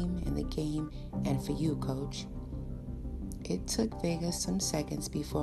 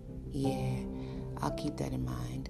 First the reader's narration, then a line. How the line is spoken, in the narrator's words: I said evenly